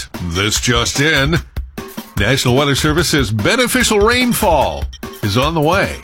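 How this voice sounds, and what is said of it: Mock newscaster voice. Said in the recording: “In my best news voice”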